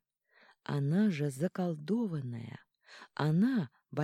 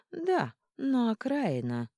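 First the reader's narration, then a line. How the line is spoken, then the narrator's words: Cheerful clarification. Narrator (Russian): уточнила весело Эрика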